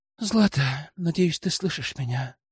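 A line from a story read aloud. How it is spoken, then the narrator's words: Guilty whisper. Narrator (Russian): прошептал, обуреваемый чувством вины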